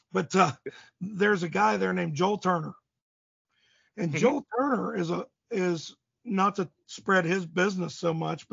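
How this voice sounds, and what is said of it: Worn-out, nearly lost voice. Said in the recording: “my voice is about gone”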